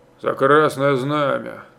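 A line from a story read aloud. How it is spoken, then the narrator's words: Grumbling. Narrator (Russian): проворчал Стародубцев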